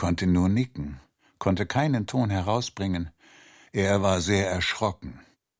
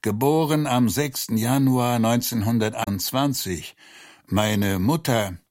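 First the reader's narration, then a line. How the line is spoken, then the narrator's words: Groaning. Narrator (German): stöhnte er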